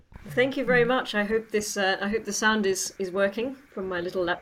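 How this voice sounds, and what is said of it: Classy-sounding accent. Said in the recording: “You've just added about 1,000,000% more class with your accent.”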